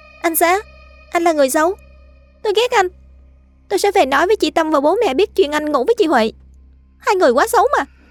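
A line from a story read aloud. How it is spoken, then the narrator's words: Shouting. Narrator (Vietnamese): Miệng cô hét lên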